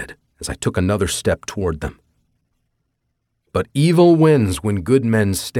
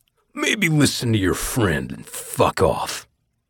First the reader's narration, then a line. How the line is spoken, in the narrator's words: Barbosa snarled